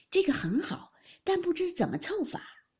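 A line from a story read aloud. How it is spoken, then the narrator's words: Laughing. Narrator (Chinese): 王夫人笑道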